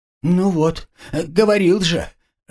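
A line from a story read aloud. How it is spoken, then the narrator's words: Henchman's plaintive squeal. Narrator (Russian): жалобно взвизгнул подручный Равах-аги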